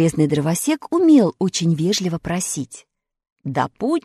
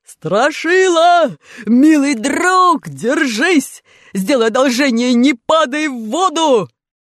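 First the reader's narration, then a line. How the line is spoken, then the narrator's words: Deafening shout through a funnel. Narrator (Russian): приложил ко рту как рупор и оглушительно заорал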